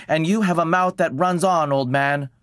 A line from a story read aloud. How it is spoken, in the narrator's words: White Deer snapped